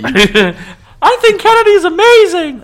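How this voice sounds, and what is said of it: Imitates another person's voice. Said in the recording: “That's my impression of Luke. ... It did sound like him. ... It sounded exactly... Words and all.”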